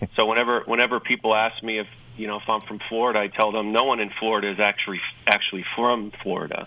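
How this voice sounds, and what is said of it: New York accent. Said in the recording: “You may tell from my accent, I probably sound like a New Yorker... I never drop the New York accent”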